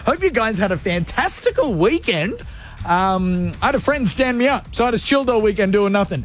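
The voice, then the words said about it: Out of breath. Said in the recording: “I'm out of breath and I got up too quickly and now I'm dizzy”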